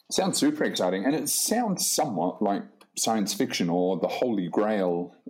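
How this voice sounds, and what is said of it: Predominantly English accent. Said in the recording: “you're speaking in a predominantly English accent ... an English accent such as yours”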